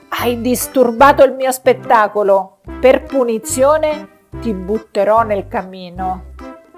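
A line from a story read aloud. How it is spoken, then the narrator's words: Thundering voice. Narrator (Italian): tuonò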